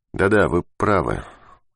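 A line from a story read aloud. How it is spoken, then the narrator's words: Calm. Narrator (Russian): Ермаков говорил уже спокойно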